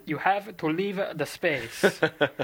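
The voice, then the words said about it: Imitates another person's accent. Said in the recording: “in the Alonso accent”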